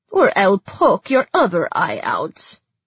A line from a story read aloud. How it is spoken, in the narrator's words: Zoya grumbled